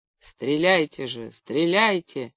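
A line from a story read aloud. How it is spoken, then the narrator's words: Moaned. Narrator (Russian): простонал учитель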